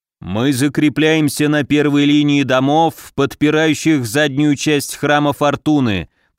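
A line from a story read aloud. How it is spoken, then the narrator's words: Booming drone. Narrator (Russian): прогудел Муром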